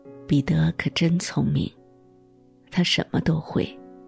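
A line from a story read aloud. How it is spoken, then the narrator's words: Murmuring. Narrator (Chinese): 她喃喃地说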